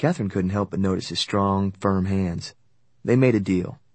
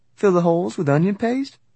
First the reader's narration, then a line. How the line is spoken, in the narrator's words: Sam laughed